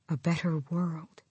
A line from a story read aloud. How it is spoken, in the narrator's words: he whispered